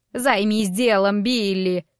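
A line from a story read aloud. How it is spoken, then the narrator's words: Growled. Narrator (Russian): прорычала она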